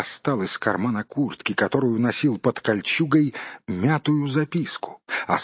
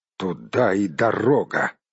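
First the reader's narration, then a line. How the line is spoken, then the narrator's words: Spoken through clenched teeth. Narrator (Russian): процедил Барт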